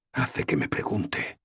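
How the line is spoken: Whispered. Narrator (Spanish): susurré

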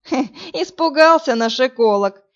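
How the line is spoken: Flattering giggle. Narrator (Russian): лестиво хихикнул Роман

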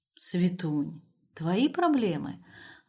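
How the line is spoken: Affectionate reply. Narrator (Russian): ласково отозвался он

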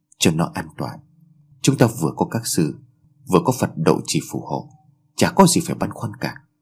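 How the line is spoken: Soft. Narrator (Vietnamese): Tôi khẽ bảo

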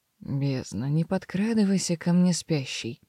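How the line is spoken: Hoarse grumble. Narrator (Russian): проворчал хриплым голосом

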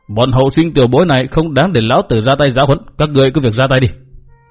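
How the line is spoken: Cold. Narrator (Vietnamese): Mạc Nam Lão Ma lạnh lùng nói

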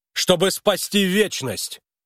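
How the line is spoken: Sudden yell. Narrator (Russian): неожиданно заорал Харлан

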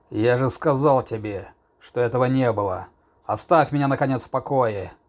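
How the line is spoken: Irritated growl. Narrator (Russian): прорычал в конец раздраженный болтовнёй щелкунчика

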